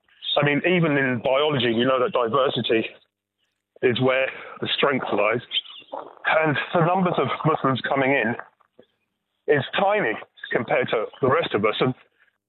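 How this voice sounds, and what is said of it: Immigrant's foreign accent. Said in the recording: “you clearly are too, judging by your accent”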